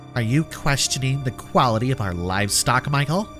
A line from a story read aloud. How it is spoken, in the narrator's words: She asked, her voice dripping with disdain